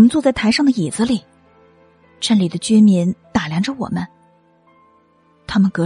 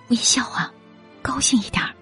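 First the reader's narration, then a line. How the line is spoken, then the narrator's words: Soft, urging. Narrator (Chinese): 卢小姐小声叮咛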